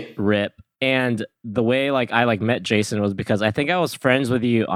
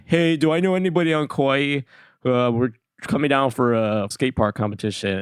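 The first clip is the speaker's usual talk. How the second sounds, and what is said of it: Slightly deeper imitation of friend's voice. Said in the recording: “You adopted a little bit of a voice there. ... very accurate impression of me. ... It honestly was relatively close. It was just a little bit deeper, but I could sense you where you just put a little stank on it.”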